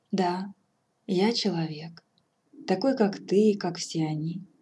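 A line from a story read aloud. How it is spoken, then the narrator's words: Sad. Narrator (Russian): грустно отвечал он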